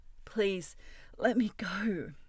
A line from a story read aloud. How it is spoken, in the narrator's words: he pleaded